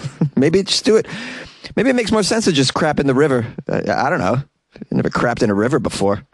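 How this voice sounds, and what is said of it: Usual voice. Nothing is said of it.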